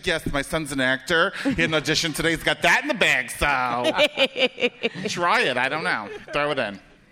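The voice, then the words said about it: Imitates Italian-American mother's voice. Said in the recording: “you did an impression of your mom for shit Italian mom say”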